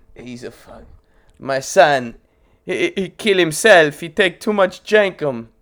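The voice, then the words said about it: Put-on foreign accent. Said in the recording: “Wrong accent... So, wrong accent.”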